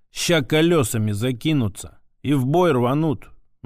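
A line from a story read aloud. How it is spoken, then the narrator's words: Gloomy prediction. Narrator (Russian): мрачно предрек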